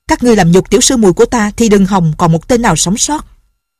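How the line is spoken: Loud shout. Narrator (Vietnamese): Lệnh Hồ Xung quát to

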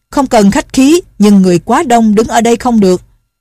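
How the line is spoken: Loud voice from crowd. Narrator (Vietnamese): Trong quần hào có người lớn tiếng nói

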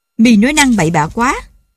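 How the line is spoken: Old man shouting. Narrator (Vietnamese): ông Chấn Đình hét

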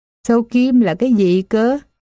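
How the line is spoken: Mocking laugh. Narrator (Vietnamese): Công chúa bật cười chế nhạo

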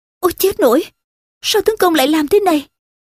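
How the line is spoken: Frightened. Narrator (Vietnamese): Điêu Thuyền sợ hãi

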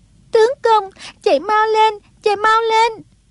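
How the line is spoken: Panicked crying outcry. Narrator (Vietnamese): Song Nhi cuốn quá bật khóc, kêu lên

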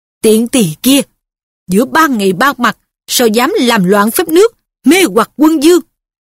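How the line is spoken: Furious loud shout. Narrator (Vietnamese): Bà nghiến răng trợn mắt quát lớn

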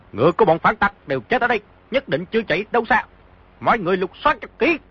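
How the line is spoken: Shouting. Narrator (Vietnamese): một người quát

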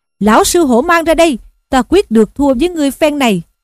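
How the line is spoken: Eager battle shout. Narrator (Vietnamese): Hô Duyên Trước hăng hái mà quát lên rằng

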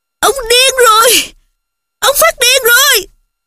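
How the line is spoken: Screaming. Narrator (Vietnamese): Nó hét lên

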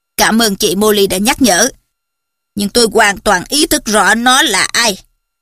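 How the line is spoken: Cold. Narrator (Vietnamese): Chú Sirius lạnh lùng đáp

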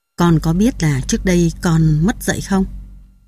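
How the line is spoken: Asked in a solemn voice. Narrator (Vietnamese): bà hỏi em với một giọng nghiêm trang

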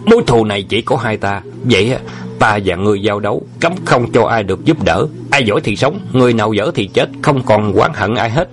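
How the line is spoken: Loud shout. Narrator (Vietnamese): Lỗ đại cương quát lớn

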